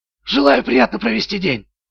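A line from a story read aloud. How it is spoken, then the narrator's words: Whisper. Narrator (Russian): прошептал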